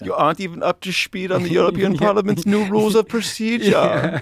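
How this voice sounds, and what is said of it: Put-on German accent. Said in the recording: “in a German accent”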